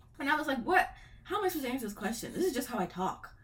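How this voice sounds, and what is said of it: Mild African American English accent. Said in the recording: “AAVE is just how I talk naturally ... I wouldn't say I have the strongest Ebonics accent, but I have one.”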